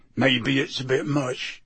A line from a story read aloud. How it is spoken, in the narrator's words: he said gruffly